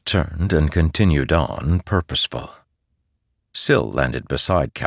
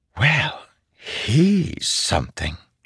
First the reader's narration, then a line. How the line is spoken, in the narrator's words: whispered